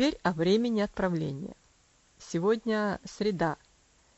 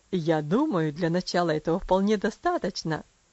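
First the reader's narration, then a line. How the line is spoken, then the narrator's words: Laughing. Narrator (Russian): засмеялся отец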